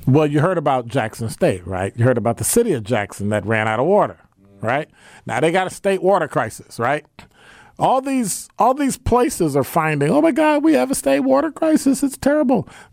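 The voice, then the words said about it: Imitates another person's voice. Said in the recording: “That's my Sherwin Hughes impersonation ... talking that voice like I'm Sherwin Hughes”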